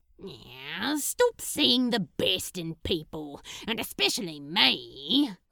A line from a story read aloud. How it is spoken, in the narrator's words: Crowley growled